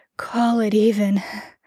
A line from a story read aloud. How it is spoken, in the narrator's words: Jared breathed, long and heavy